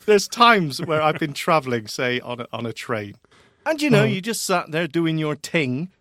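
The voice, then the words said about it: Whiny voice with unusual accent. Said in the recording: “it is a terrible, whiny voice with a funny accent.”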